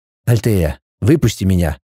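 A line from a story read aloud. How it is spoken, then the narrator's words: Boy's whisper. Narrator (Russian): прошептал мальчик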